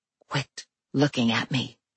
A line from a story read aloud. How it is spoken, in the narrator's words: I whispered, pushed by the golem's wishes rather than my own